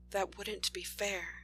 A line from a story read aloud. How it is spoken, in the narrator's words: murmurs